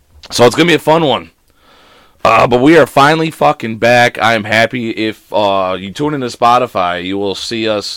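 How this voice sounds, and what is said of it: Hoarse, nearly lost voice. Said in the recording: “I can't talk. ... I lost my voice. ... Your voice is gone.”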